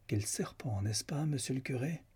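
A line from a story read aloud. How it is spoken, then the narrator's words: Plain. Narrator (French): dit la baronne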